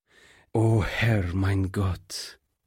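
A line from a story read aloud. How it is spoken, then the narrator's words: Pastor groaning. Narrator (German): stöhnte der Pastor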